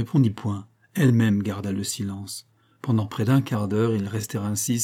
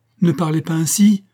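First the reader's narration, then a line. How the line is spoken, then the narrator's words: Exclaimed. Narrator (French): s'écria-t-il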